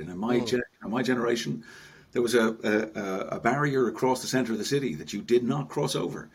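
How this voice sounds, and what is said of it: North Dublin Irish accent, deep voice. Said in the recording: “I'm trying to place your accent... You have a voice that goes with the beard. It is a voice for radio... Is it a Dublin accent?... I'm North Dublin, born and bred”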